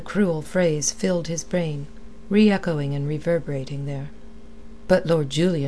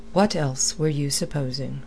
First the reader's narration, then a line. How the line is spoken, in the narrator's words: Blood asked the question wearily